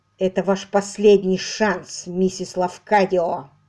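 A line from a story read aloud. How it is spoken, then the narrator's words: Hissing. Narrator (Russian): прошипел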